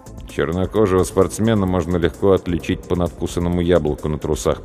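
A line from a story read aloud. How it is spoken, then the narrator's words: Muttered. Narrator (Russian): пробормотал я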